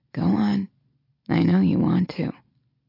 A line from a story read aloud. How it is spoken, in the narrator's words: murmurs